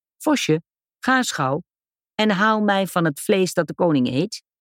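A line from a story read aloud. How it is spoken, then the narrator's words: Hunter calling out. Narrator (Dutch): riep de jager, zei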